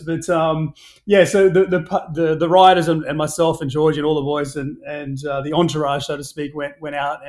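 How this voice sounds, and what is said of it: Australian accent. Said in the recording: “I'm a legitimate Aussie... Just my accent”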